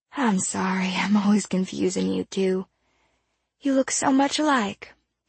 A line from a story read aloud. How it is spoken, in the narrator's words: she sighed